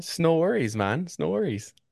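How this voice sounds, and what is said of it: Slight put-on northern accent. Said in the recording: “You got a little accent there now, huh? ... You go up north for a while and you get a little accent there.”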